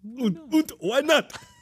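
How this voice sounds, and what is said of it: Bad fake German accent. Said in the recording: “That was a horrible German impersonation. ... It sounded like Alf.”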